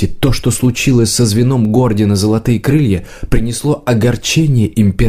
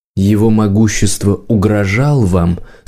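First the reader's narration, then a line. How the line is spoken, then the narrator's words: Soft question. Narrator (Russian): спросил он мягко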